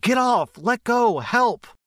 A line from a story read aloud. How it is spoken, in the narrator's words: she was screaming in my ear